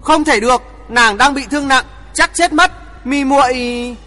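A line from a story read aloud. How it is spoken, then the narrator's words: Anguished scream. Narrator (Vietnamese): Thượng Chí lộ vẻ đau khổ thét lớn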